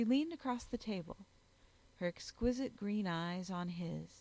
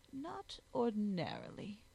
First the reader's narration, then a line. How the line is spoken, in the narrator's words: she interrupted coolly